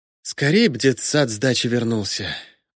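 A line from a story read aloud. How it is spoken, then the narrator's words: Sigh. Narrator (Russian): вздохнула Самсонова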